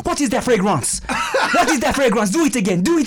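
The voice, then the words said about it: Put-on French accent, muddled. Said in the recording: “I fucked my accent. I got all discombobulated right now... When you did the French accent, I couldn't switch into an African accent because we were doing the French accent too much.”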